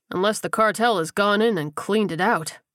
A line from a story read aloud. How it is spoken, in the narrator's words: Leon said bitterly